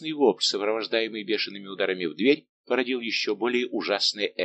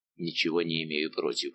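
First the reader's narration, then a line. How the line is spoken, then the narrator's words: Mutter. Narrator (Russian): пробормотал Безмо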